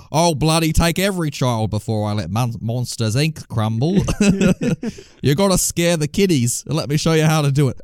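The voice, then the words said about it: Put-on Australian accent, villain voice. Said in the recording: “his Aussie accent ... if like Mr. Waternoose from that movie was Australian”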